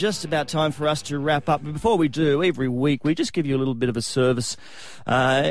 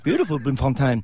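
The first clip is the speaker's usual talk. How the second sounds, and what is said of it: Put-on accent. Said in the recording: “Great accent.”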